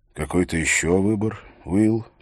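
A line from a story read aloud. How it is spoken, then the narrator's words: Soft, sympathetic. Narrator (Russian): голос барона звучал мягко, даже сочувственно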